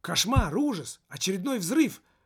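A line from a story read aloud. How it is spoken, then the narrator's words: Shouting. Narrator (Russian): выкрикнул он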